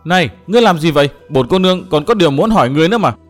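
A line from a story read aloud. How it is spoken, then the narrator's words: Loud surprised voice. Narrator (Vietnamese): Linh Châu ngạc nhiên lớn tiếng nói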